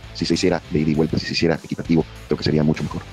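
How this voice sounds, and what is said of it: Announcer-like voice. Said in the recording (Spanish): “tenía como voz de locutor”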